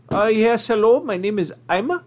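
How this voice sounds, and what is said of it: Put-on foreign-sounding accent. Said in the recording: “rolls in with an accent, no joke”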